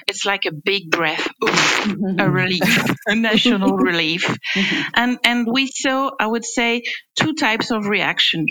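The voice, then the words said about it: French accent. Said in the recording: “Sorry for my French accent ... We love your French accent”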